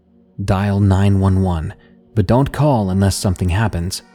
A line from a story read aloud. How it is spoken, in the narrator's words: he said